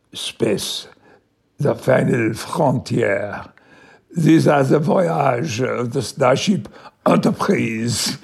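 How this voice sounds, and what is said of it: Put-on French accent. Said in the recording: “speaking Picard's lines with a French accent ... made it as impeccable a French accent as I could ... that's how I did it”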